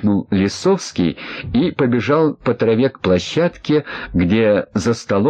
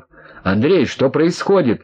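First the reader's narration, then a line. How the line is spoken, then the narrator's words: Shouting into microphone. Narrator (Russian): кричал в микрофон майор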